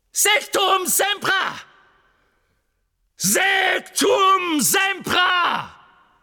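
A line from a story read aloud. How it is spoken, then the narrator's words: Screaming. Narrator (German): Harry schrie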